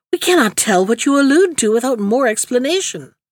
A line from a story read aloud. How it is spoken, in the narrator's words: exclaimed the nurse